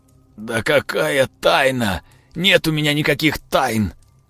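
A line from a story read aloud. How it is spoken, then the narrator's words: Lifeless muffled voice. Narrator (Russian): Отозвался безжизненным глухим голосом Родион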